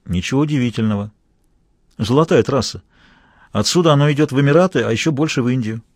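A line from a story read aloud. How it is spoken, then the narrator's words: Calm. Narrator (Russian): Вундеркинд спокойно сказал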